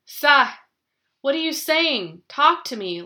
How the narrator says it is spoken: Lara pleaded

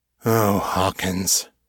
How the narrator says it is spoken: sighed

